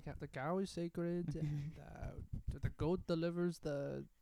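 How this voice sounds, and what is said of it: Put-on Indian accent. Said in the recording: “I don't know how I'm doing the voice ... lessons on how to do an Indian accent”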